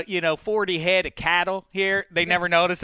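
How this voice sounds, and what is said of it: Put-on Southern accent. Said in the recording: “here comes the southern accent”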